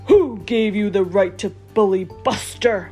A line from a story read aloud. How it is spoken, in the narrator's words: boomed the biggest dog